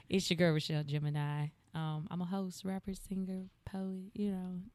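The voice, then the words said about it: Sexy, seductive voice. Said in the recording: “put on my sexy voice.”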